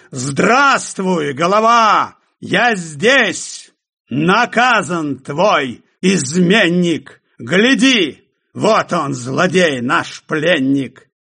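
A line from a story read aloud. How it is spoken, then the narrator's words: Shout. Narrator (Russian): он крикнул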